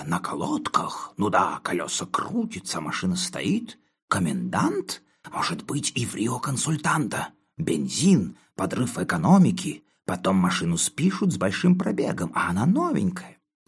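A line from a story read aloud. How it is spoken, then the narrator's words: Faint fragmented whispering. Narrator (Russian): перешли на шепот, и до меня доносилось только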